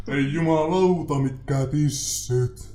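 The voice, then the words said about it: Gruff deep voice. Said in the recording (Finnish): “möreällä äänellä”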